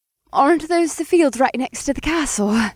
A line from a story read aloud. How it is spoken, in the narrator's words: She gasped